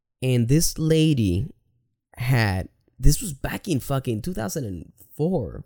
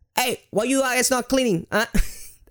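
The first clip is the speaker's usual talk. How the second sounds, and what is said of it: Poor put-on Italian accent. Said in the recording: “she was Italian. I don't know how to make an Italian accent. ... That's horrible.”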